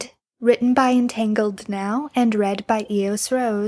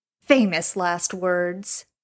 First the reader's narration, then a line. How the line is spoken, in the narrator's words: Gabriel says sarcastically